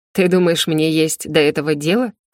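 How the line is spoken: Creature's scoffing grunt. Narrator (Russian): хмыкнуло существо

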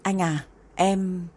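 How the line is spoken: Faltering, stammering. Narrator (Vietnamese): Cố Doãn Bái ấp úng đáp

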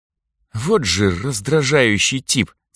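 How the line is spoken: Irritated hiss through teeth. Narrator (Russian): цыкнула сквозь зубы Асура

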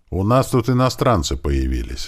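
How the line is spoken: Plain. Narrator (Russian): сказал я ему

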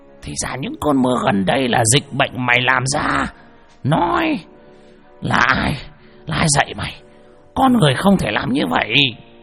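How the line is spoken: Roaring. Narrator (Vietnamese): Lão Mo gầm lên

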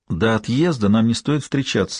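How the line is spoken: Sighing. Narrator (Russian): вздохнула Рози

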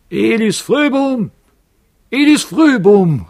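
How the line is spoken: Strong voice calling from above. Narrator (German): rief eine starke Stimme von oben herab

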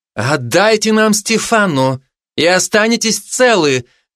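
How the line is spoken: Woman shouting, foreign language. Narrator (Russian): крикнула женщина на среднем пангалине

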